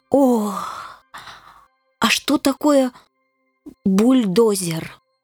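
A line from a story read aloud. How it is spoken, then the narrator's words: Moaning. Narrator (Russian): Рыцарь застонал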